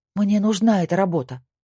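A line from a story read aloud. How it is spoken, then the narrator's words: Pleading. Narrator (Russian): взмолилась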